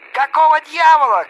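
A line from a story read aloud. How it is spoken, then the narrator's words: Shouting. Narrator (Russian): кричал Эпштейн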